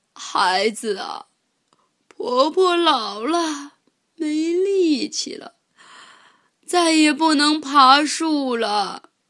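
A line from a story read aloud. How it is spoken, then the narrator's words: Sighing. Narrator (Chinese): 大野狼叹了口气说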